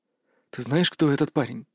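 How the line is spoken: Whisper. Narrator (Russian): шепнул я Илоне

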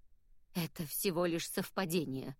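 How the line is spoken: Forced, reluctant. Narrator (Russian): выдавил он

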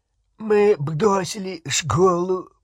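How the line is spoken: Nasal voice. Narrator (Russian): прогнусавил Рон

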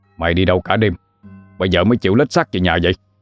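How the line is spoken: Angry shout. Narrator (Vietnamese): ông Điền liền quát lên

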